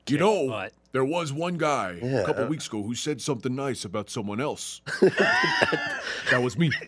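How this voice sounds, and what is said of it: Imitates another person's voice. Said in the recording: “What was that imitation? ... That was a Scott imitation.”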